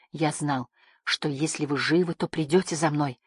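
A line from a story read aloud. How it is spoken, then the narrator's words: Whisper. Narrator (Russian): прошептал он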